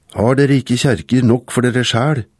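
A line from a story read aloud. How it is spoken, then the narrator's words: Shouting. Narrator (Norwegian): en som ropte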